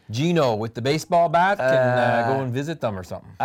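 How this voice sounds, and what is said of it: Bad Canadian-Italian accent. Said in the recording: “That's my bad Canadian-Italian accent.”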